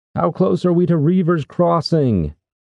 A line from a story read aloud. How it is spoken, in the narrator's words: shouted over the wind